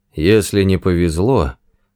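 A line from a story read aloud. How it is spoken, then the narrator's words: Gloomy voice. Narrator (Russian): мрачно проговорил Форд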